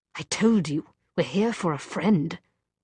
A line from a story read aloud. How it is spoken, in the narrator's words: he snapped